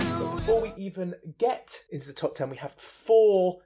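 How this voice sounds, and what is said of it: Usual voice. Nothing is said of it.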